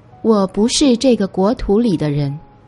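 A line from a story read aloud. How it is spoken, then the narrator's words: Faint, disembodied voice. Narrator (Chinese): 空气中传来了她淡淡的声音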